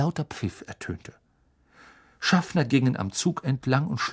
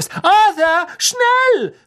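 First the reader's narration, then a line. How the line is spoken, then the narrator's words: Called out. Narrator (German): rief Mrs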